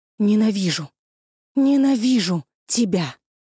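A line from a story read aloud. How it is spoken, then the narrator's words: Furious, through clenched teeth. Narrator (Russian): сквозь зубы яростно выплюнула она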